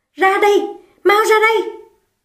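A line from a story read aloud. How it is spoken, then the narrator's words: Impatient loud shout. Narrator (Vietnamese): cô sốt ruột hét to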